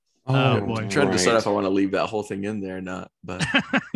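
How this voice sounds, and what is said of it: Strained, worn-out voice. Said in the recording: “my voice is still shot from yelling at a concert”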